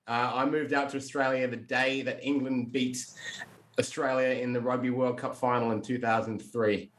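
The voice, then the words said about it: Slight English accent twang. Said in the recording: “there's definitely a bit of a twang there”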